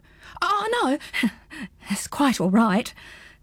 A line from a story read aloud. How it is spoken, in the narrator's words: gulped Pins